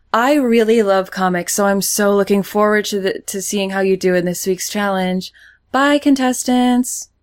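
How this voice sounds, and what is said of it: Imitates another person's voice. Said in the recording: “That's a very good Megan Fox impression.”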